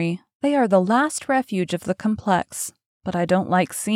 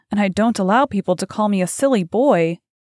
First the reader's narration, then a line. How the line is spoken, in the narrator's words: cried Dorian Gray